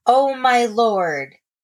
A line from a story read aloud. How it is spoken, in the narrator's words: a man who called out